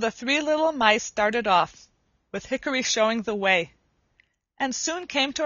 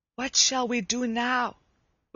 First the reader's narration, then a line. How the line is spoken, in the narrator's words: whispered Hickory to his brothers